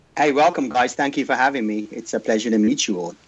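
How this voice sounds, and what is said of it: English accent. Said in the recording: “Got that accent, man, that accent. You're from England originally”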